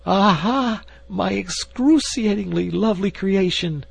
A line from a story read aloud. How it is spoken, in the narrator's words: he cried